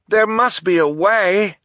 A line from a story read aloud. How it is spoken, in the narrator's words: Duncan cried